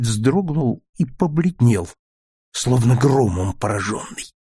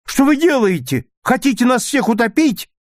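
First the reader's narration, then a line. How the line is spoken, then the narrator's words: Frightened scream. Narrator (Russian): Отжил в испуге закричала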